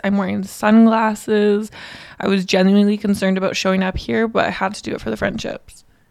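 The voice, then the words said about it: Hoarse, strained voice. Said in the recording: “I feel like I'm losing my voice.”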